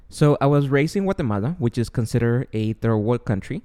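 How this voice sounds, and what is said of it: Guatemalan Spanish-accented English. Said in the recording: “I was born and raised in Guatemala. Therefore, my accent and my ESL will come out here and there.”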